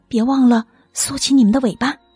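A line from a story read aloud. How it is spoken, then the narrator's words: Whispering. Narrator (Chinese): 邋遢熊小声说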